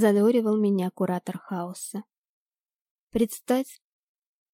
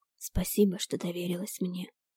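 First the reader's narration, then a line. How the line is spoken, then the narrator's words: Whisper. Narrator (Russian): прошептал Ирис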